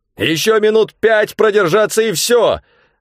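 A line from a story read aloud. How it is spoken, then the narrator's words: Shouting. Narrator (Russian): закричал я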